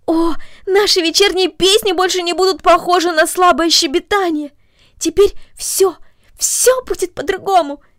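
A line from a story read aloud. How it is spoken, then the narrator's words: Exclaiming. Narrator (Russian): воскликнула она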